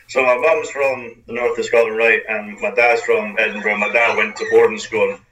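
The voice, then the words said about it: Toned-down Scottish accent, slight American twang. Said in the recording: “posh jock ... a toned down accent ... a little bit, I would say, of an American twang at the end of what I say”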